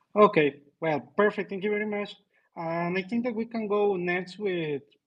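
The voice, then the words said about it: South American accent. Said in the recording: “your accent, how you speak with the South American flavor”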